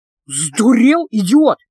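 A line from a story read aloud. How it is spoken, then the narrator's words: Hissed. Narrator (Russian): прошипел Эдди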